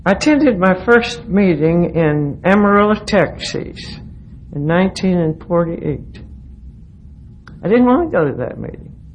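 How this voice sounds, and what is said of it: Southern North Carolina hill accent. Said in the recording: “if you haven't picked up on the accent, I'm a Texan by marriage, but I'm a hillbilly. I grew up in the hills of North Carolina”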